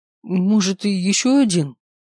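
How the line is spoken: Frightened youthful reply. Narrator (Russian): испуганно ответил сопляк

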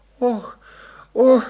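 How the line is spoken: Moaning. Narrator (Russian): застонала она

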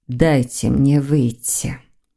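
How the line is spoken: Muffled witch's voice. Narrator (Russian): глухо произнесла ведьма

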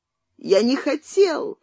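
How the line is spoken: Tearful, crying voice. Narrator (Russian): повторял Цвирик плачущим голосом

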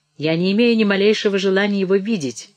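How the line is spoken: Loud mocking. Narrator (Russian): все так же громко насмехался Броуди

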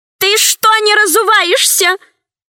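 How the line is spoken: Shouting after someone. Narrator (Russian): закричала вслед мужу Мощина

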